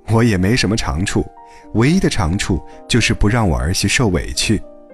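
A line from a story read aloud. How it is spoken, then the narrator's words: Beaming, proud. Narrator (Chinese): 蔡大姐脸上却笑得像朵花，自豪地说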